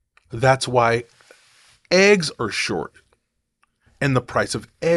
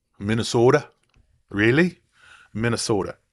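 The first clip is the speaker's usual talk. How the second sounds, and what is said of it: Poor put-on Minnesota accent. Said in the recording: “That was my horrible Minnesota accent”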